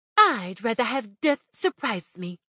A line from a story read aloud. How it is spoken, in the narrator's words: said loudly